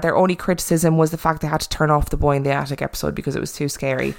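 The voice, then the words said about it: Irish accent. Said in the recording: “In my lovely Irish accent.”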